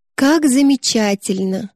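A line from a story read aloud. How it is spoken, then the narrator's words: Purred. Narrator (Russian): промурлыкала она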